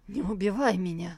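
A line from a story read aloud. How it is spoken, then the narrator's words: Pleading. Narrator (Russian): взмолился поддельный Тантайцзинь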